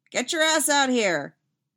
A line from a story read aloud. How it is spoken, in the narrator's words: shout over her shoulder